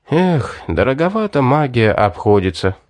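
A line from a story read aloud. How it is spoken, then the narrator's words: Sigh. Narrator (Russian): вздохнул Вард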